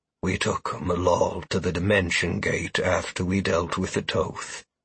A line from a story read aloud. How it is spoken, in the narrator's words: Ibar said quietly